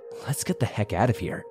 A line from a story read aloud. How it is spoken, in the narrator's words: Joe hissed